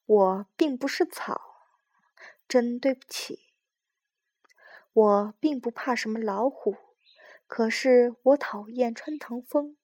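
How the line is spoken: Soft voice. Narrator (Chinese): 花儿轻声地说道

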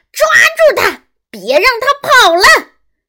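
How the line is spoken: Hysterical shouting. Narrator (Chinese): 歇斯底里的大喊

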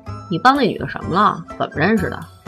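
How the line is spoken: Plain. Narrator (Chinese): 米阳问

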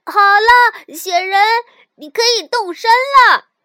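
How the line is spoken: Happy calling out. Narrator (Chinese): 小鼹鼠很高兴 对着高山呼喊

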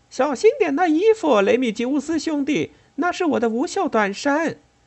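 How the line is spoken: Cheerful call, young woman. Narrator (Chinese): 一个年轻妇人快活地叫着

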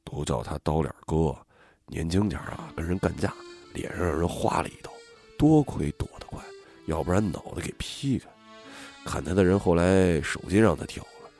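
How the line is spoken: Deliberately lowered voice. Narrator (Chinese): 张强故意压低声音

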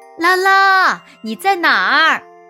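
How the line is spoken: Mother calling out. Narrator (Chinese): 妈妈喊

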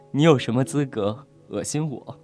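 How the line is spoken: Furious laugh. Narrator (Chinese): 薛洋怒极反笑

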